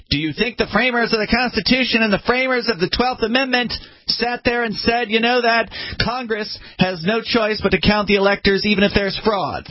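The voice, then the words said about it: Shrill impression of Mark Levin. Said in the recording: “That's my best impression of him. He's very shrill. ... Mark Levin”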